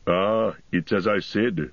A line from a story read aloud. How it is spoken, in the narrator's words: growled Gimli